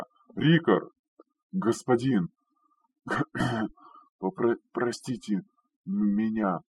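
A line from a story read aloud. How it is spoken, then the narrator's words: Hoarse exhale, big man. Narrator (Russian): С хрипом выдохнул здоровяк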